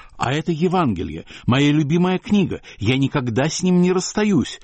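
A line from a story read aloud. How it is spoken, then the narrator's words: Agitated voice. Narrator (Russian): говорил Мандельштам взволнованным голосом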